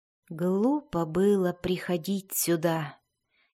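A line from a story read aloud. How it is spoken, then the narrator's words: Barely audible dismayed whisper. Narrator (Russian): еле слышно прошептал Дзирт, осознав, какую дилемму он поставил перед собой и глубинными гномами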